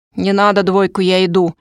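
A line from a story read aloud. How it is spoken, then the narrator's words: Grumbling. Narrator (Russian): пробурчал Влад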